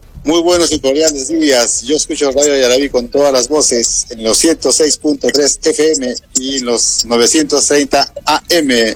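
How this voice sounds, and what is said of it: Deep radio-announcer voice. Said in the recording (Spanish): “voz de locutor”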